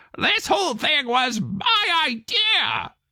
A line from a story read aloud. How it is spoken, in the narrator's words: croaked to himself and to everyone else